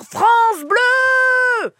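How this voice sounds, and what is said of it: Shouting very loudly. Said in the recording (French): “je veux que tu cries très fort ... Très, très fort.”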